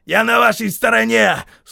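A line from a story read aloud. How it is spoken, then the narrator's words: Shouted. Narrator (Russian): снова крикнул Хейксвилл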